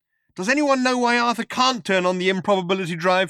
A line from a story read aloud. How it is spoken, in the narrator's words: shouted Trillian